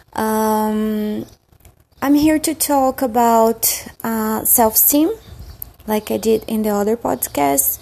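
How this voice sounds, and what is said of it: Brazilian accent in English. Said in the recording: “I'm originally from Brazil, so forgive my accent.”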